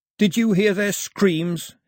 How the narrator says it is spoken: he yelled to the empty sky

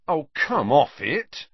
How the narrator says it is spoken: he told the wall irritably

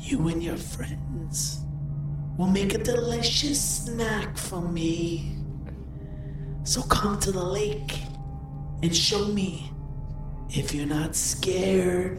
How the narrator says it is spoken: A raspy voice says

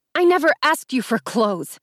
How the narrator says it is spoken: snapped, overcome with so much anger

